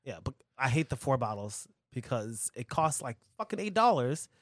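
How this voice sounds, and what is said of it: Usual voice. Nothing is said of it.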